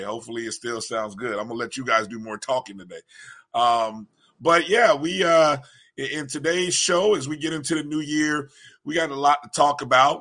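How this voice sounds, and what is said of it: Froggy, hoarse voice. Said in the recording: “my voice sounds a little froggy. I'm not sick. ... My voice is just froggy after screaming at high school boys for the last 24 hours”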